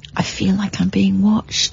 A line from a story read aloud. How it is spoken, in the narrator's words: I said quietly to Richard